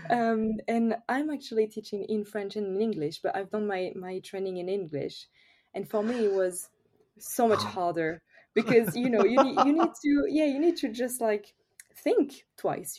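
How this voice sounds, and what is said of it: French accent. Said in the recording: “I'm French, of course, I think everyone notice with my accent.”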